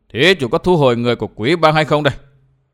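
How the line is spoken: Cold. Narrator (Vietnamese): Hòa thượng mặt khỉ lạnh lùng

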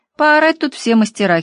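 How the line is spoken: Giggling. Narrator (Russian): хихикнула я

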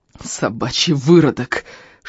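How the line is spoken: Strained hiss while struggling. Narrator (Russian): шипел Эльм, стараясь выбраться из-под навалившегося на него рыбака

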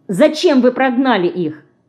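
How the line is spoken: Quick, angry question. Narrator (Russian): быстро ответила Динка и сердито спросила

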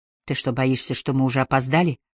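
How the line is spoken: Quiet question. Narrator (Russian): тихо спросила Кайя

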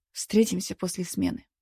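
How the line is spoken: Quiet. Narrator (Russian): произнес Антон тихо

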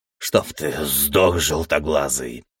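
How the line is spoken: Demon growling. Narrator (Russian): прорычал один из демонов

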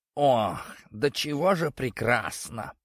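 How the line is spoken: Contented purr. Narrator (Russian): промурлыкал кот, пригревшись на солнышке

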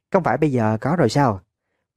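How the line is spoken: Girl, simple reply. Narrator (Vietnamese): Cô gái trả lời rất đơn giản

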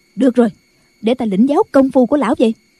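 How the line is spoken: Impatient shout. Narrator (Vietnamese): Không nhẫn nại được nữa, bà quát lên

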